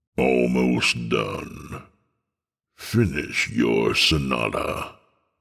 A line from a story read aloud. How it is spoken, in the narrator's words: the little man croaked